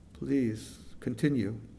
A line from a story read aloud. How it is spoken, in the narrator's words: Unsteadily, she said